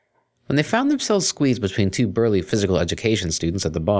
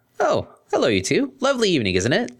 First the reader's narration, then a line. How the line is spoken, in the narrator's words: the stallion said cheerfully